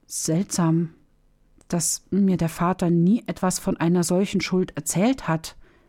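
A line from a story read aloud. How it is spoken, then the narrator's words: Confused stammer. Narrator (German): stotterte Hamdam ganz verwirrt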